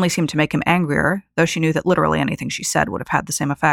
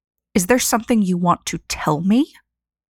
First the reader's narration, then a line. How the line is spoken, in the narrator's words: Arlen spat the words at her